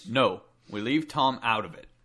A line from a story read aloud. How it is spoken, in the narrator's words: Jake said firmly